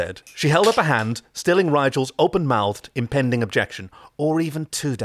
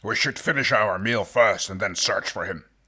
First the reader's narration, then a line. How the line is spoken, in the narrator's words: Dargo grumbled